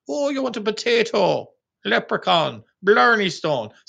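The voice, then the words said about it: Ridiculous put-on Irish accent. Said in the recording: “I put on a ridiculous accent.”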